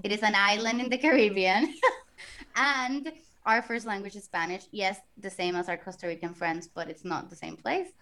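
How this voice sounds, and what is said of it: Puerto Rican accent. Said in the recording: “I am originally from Puerto Rico. That's why the accent.”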